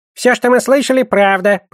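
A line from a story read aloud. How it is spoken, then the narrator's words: Squeaky voice. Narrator (Russian): пропищал Гоблин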